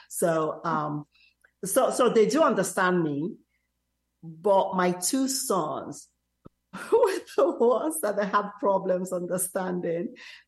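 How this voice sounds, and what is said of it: Nigerian accent with American inflection. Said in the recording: “there is a little bit of an inflection in my accent... my American students tell me I have a deep African, British, and French accent”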